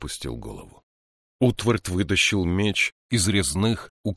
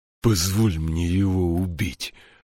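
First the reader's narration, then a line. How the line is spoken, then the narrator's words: Breathed out. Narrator (Russian): выдохнул он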